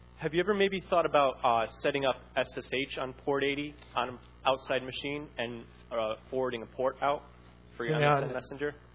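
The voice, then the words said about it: American accent. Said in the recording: “That sounds like an American accent.”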